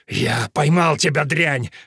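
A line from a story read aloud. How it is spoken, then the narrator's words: Breathed out. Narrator (Russian): выдохнул Сим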